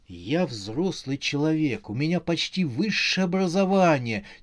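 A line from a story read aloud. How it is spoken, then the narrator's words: Quiet cursing. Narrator (Russian): тихо ругался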